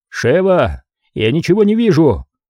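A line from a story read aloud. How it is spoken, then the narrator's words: Shouted. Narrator (Russian): крикнул ей Крис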